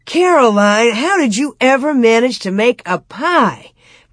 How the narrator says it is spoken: Pa exclaimed

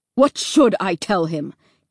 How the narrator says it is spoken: Dad snapped back

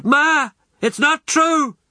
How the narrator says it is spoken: cried out

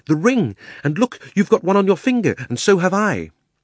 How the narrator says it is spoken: cried Diggory

